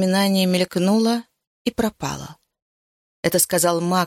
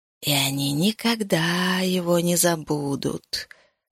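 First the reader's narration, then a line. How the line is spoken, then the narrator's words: Whispering. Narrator (Russian): шептал Ришайи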